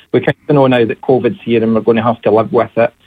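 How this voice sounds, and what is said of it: Scottish Ayrshire accent. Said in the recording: “do people notice that accent ... Galway? Is it Edinburgh ... I'm from about half an hour from Glasgow, Ayrshire in Scotland ... a lot of people tag me as Irish”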